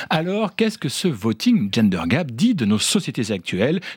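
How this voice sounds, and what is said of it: Speaks with a distinct accent. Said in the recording (French): “votre bel accent”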